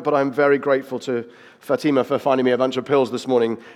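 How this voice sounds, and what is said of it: Unwell, low-energy voice. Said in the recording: “You can probably tell from my voice, I'm not on top physical form at the moment”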